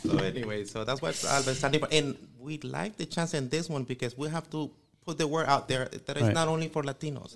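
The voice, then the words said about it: English spoken with an accent. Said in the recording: “We speak with an accent, but we do speak English.”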